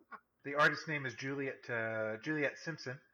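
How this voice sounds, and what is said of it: Usual voice. Nothing is said of it.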